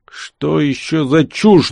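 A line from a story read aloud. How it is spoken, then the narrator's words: Shaky muttering voice. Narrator (Russian): дрогнувшим голосом пробормотал кто-то из наемников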